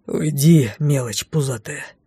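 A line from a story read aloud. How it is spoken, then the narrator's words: Hostile grumble. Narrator (Russian): Неприязненно буркнул шеф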